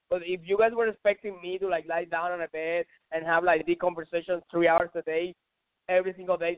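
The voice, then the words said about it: Strong accent. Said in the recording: “I know my accent is very strong.”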